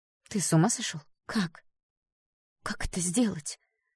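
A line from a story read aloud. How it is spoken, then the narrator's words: Whisper, suppressing fear. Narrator (Russian): зашептала она, стараясь не показывать страха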